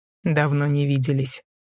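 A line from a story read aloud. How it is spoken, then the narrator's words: Calm reply. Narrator (Russian): спокойно ответил ей Дэймон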